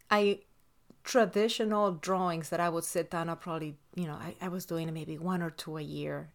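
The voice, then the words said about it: Speaks with an accent. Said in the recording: “I hope you guys can bear with my accent.”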